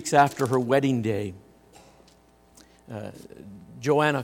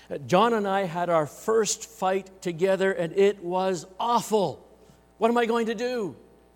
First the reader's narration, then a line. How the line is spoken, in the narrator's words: cried